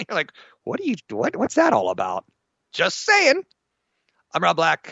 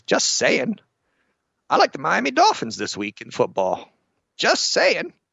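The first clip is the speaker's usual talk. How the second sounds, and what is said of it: Poor imitation of another person's voice. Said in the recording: “doing a bad OJ impression.”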